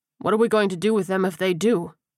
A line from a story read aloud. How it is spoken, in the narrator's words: Bratz asked over the frustrated grunting of his undead prisoner